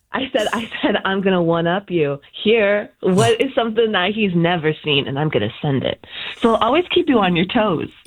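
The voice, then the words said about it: Smiling, cheerful voice. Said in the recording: “I hear the smile in your voice.”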